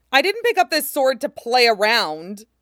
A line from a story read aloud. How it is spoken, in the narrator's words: Tashigi howls, voice reaching a fever pitch and breaking like glass over the words